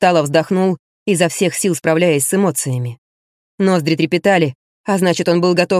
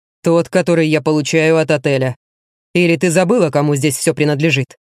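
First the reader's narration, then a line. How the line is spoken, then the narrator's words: Near-growl of helpless rage. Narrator (Russian): Вероника почти зарычала в бессильной злобе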